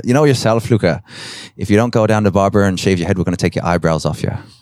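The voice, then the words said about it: Put-on Irish accent. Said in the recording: “forgive the accent, all Irish people”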